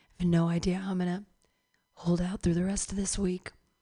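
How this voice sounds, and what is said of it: Hoarse, worn-out voice. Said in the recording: “my voice is so shot right now”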